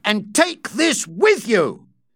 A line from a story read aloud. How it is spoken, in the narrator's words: Rawdon shouted